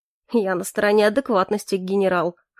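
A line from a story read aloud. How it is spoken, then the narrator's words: Wry snort. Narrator (Russian): хмыкнул Моррис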